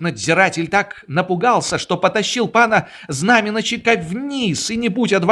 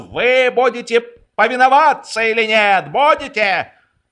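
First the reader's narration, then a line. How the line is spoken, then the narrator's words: Yelling. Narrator (Russian): судья заорал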